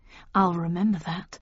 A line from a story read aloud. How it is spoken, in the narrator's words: I murmured